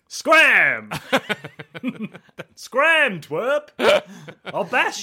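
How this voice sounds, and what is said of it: Unconfident wizard character voice. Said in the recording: “wizard voice ... There's not a lot of confidence to your wizard”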